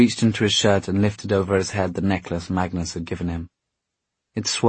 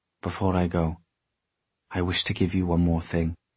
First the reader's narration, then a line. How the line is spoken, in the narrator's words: he said softly